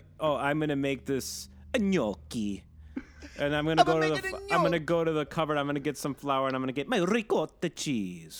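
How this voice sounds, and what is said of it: Fake Italian accent. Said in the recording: “just say it regular. You don't have to break into this fake Italian accent”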